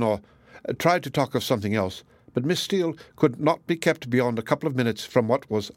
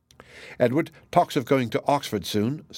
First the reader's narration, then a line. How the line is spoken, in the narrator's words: said she